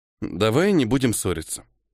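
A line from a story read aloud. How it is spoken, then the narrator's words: As calmly as possible. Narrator (Russian): максимально спокойно сказал я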